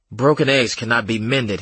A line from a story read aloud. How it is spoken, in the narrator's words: he snapped